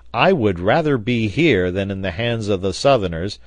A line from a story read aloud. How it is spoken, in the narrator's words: cried the sailor